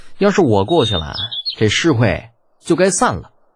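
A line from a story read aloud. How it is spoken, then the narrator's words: Calm, faint smile. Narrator (Chinese): 李浩淡淡一笑，又补充了一句道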